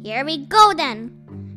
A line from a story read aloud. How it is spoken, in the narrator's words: shouted Bean